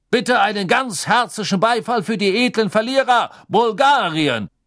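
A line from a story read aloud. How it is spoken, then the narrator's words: Called out. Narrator (German): rief Backman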